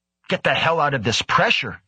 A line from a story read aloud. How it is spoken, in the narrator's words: Egon snapped